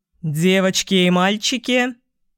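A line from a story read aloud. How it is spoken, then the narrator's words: Deep bass voice. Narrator (Russian): пробасил он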